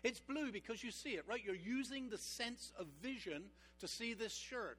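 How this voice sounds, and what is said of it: Mixed Texan, Canadian, British accent. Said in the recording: “I have kind of like a funny accent. It's somewhat Texan, somewhat Canadian, a little bit British. It's all over the place... something's wrong with the way that guy talks”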